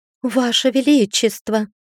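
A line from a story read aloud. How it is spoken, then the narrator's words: Exclaiming. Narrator (Russian): воскликнула она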